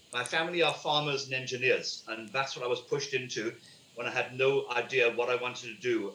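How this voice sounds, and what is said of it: British accent. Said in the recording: “My family in the UK, as you can tell by my accent, I'm not from this country”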